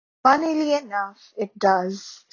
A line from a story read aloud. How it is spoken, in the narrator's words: said Nearly Headless Nick in a bored voice